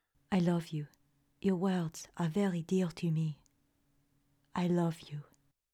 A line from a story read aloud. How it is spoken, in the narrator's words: answered softly